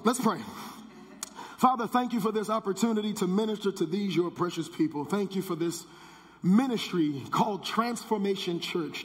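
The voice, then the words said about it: Hoarse voice. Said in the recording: “my hoarse voice ... I went hoarse a little bit”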